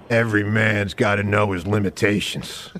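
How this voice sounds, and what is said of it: Bad impression of another person's voice. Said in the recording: “your Clint Eastwood impression ... That was bad ... That's so bad ... A lot of your impressions are just the same voice”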